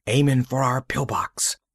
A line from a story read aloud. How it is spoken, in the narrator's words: whispered Coffee